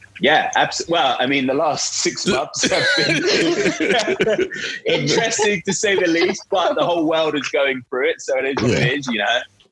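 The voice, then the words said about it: British London accent. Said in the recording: “I heard the accent, so I thought we were talking to the UK ... I'm actually from London”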